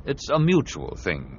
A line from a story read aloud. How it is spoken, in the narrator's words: Qui-Gon said